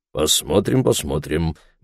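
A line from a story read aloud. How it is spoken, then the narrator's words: Muttering. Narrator (Russian): бормотал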